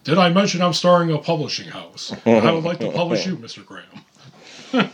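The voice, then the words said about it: Imitates another person's voice. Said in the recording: “my Obama impression”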